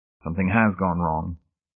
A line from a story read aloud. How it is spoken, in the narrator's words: he said quietly